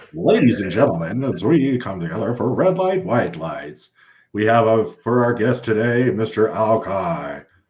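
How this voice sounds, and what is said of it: Game show announcer voice. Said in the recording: “game show announcer voice”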